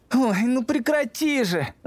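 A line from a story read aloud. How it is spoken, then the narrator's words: Tired, cranky whine. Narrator (Russian): захныкал Эдмунд, который устал, но притворялся бодрым и от этого, как обычно, капризничал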